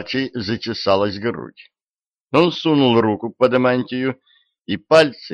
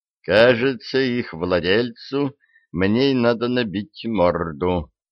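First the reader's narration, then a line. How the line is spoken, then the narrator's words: Young man mumbling. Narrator (Russian): пробормотал юноша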